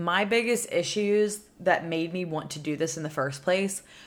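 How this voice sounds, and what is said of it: Usual voice. Nothing is said of it.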